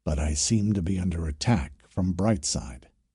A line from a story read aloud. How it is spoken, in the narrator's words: a soft electronic whisper as he added